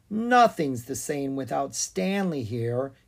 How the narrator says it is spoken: he sighed

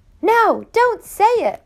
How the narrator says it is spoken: Elias screamed

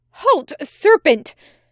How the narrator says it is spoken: Ridwith cried

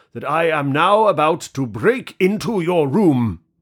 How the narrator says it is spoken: cried loudly

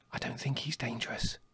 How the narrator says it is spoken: whispered Blackberry

